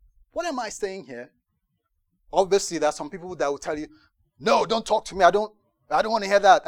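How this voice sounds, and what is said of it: Usual voice. Nothing is said of it.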